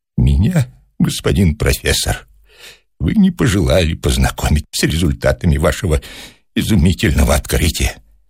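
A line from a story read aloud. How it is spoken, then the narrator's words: Sad, with deep sigh. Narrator (Russian): сказал он печально и глубоко вздохнул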